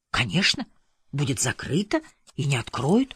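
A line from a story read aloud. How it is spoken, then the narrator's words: Whispered reply. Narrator (Russian): тоже шепотом ответила она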